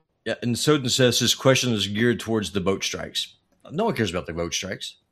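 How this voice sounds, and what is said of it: Southern American accent. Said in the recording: “The southern accent's getting in the way.”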